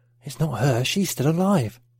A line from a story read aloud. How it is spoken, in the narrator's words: Pat whispered to Mark